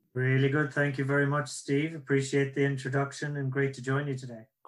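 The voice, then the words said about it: Irish accent. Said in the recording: “That's my Irish accent.”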